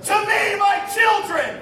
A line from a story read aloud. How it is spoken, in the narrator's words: bellowed